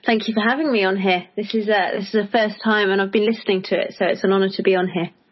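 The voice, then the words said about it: British accent. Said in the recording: “your accent will give away that you are from the UK”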